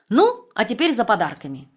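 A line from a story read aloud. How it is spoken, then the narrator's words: Cheerful female voice. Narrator (Russian): весело сказала она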